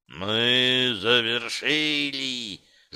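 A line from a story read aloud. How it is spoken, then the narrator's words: Ominous growl. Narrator (Russian): зловеще прорычал Сивый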